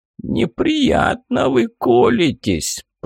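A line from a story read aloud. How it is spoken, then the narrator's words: Creaky voice. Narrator (Russian): проскрипел тот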